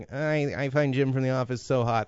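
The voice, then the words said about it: Put-on girly voice. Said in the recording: “That's my girl voice”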